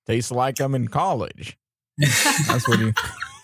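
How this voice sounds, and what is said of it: Bad impression, slow simple-minded drawl. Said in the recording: “really bad George impression. Sounded more like Forrest Gump.”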